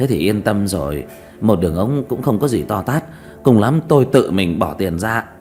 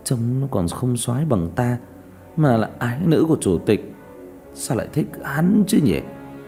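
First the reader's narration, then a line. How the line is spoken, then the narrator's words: Scoffing mutter. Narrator (Vietnamese): một tiểu tử hừ một tiếng lẩm bẩm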